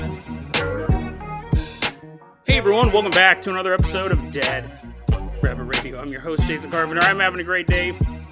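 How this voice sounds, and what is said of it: Stuffy, congested sick voice. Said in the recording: “I'm actually a little under the weather. I'm sure you guys could tell in my voice... sound a little stuffy... I'm pretty sick”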